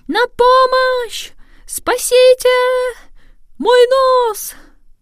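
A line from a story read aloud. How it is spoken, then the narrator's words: Sudden panicked scream. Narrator (Russian): вдруг закричал не своим голосом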